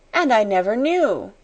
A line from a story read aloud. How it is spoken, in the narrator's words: she cried woefully